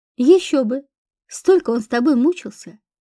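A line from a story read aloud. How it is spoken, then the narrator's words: Chuckled. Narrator (Russian): хохотнул Яромир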